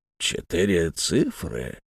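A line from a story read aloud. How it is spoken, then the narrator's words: Muttered. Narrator (Russian): пробормотал Бен Омар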